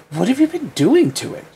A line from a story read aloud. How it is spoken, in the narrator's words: She exclaimed